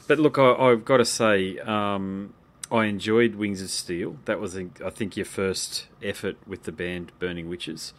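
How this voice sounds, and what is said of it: Australian accent. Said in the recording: “I'm enjoying the accent. ... we have a unique accent. Only here. It only comes from here.”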